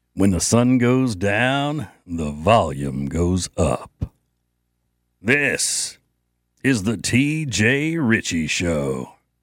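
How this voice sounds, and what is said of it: Deep big announcer voice. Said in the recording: “my big announcer voice ... You know how many years I had to smoke to be able to do that? ... just long enough for my voice to drop”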